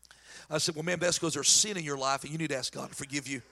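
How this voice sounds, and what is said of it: Fast-talking North Carolina country accent. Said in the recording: “I'm from North Carolina with a crazy country accent, and I talk a million miles an hour.”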